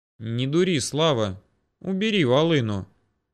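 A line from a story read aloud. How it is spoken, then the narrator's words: Calm declaration. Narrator (Russian): не менее спокойно заявил Ермолов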